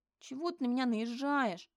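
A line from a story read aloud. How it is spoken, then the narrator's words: Indignant, plaintive nasal whine. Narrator (Russian): прогундел возмущенно и жалобно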